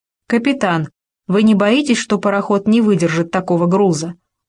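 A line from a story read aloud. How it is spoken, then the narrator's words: Plain. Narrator (Russian): спросил Звенигородов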